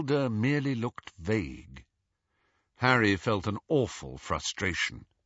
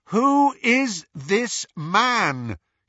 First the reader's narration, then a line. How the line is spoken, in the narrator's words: he repeated loudly